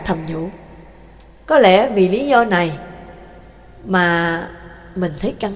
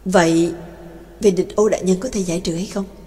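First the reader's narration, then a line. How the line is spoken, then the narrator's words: Soft question. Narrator (Vietnamese): Trác Mộc Cường Ba khẽ hỏi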